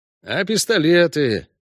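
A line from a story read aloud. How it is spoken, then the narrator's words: Glum question. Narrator (Russian): уныло спросил Зигурд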